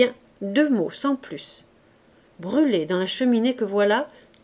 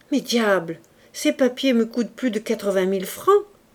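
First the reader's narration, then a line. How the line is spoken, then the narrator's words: Angry exclamation. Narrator (French): s'écria le prince fâché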